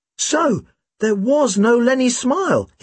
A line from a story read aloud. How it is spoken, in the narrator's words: he exclaimed